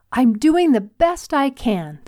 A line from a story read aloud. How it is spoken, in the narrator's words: the volunteer yelled